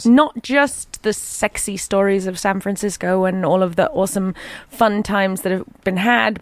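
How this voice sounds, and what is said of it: Posh Southern English accent. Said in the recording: “my outrageous English accent ... Southern England? ... You can tell I'm from the South. My accent is posh.”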